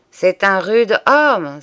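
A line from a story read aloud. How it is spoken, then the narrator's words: Exclaimed, rooster. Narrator (French): s'exclama le coq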